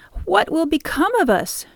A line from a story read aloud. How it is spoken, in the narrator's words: cried